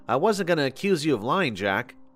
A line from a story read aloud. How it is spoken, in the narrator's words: I replied